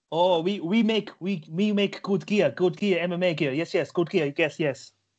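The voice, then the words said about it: Mock broken-English accent. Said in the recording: “That was a bad impression ... speaking broken English”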